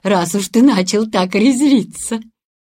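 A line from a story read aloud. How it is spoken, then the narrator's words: Laughing. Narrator (Russian): рассмеялась тетушка Брингер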